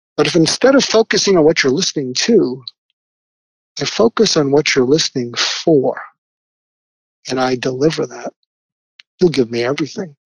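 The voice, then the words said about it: Calm, smooth NPR radio voice. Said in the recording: “I went into my NPR voice ... I changed my voice”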